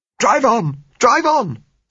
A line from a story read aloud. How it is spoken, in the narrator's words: said Josella hysterically